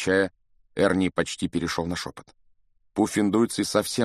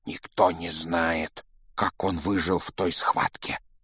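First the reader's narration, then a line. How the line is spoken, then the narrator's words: Whisper, boy. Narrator (Russian): шептал толстый мальчик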